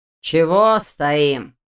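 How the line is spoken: Mocking question. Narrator (Russian): насмешливо поинтересовался он

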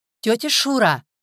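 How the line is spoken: Shouted over a fence. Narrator (Russian): крикнула она через ограду

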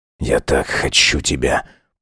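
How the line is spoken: Growled. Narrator (Russian): прорычал Сайлос

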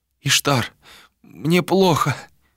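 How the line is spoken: Moaning. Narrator (Russian): простонала Малика

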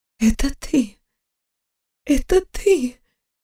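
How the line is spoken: Faint failing whisper. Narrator (Russian): Едва шептала, голос отказывал

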